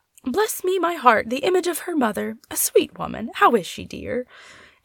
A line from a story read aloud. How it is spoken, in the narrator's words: Madam Shaw, a quiet old lady, exclaimed on seeing Polly